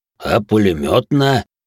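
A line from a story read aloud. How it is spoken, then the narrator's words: Displeased deep bass. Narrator (Russian): недовольно пробасил Толя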